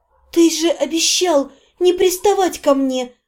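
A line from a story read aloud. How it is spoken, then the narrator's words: Almost soundless breath. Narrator (Russian): Почти беззвучно выдохнула я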